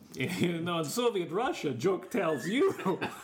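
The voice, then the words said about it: Put-on Russian accent. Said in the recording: “Oh, hello, Yakov Smirnov, if you're listening. ... You do accent.”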